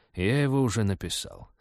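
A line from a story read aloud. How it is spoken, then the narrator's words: Calm reply. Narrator (Russian): спокойно ответил Ашсей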